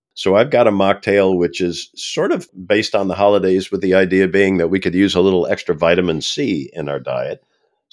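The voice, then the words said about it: Congested, sick-sounding voice. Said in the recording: “you can tell in my voice throughout this entire podcast, I'm still dealing with the upper respiratory impacts of COVID”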